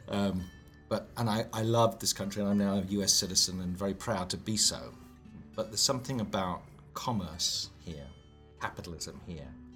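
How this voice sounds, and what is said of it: British accent. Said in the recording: “you can tell from my accent I'm not from El Paso ... I'm a Brit”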